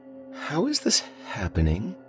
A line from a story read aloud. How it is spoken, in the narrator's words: murmured